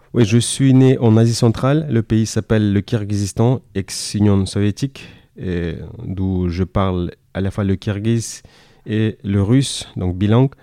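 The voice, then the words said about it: Fluent French with slight foreign accent. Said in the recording (French): “Tu parles très bien français avec un petit accent”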